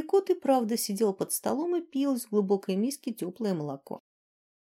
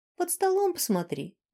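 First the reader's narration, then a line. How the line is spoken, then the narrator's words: Cheerful prompt. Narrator (Russian): весело подсказал Сьят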